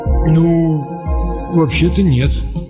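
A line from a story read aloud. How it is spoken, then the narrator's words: Confused mumble. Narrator (Russian): растерянно промямлил разведчик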